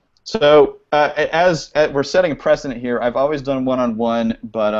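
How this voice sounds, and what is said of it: Usual voice. Nothing is said of it.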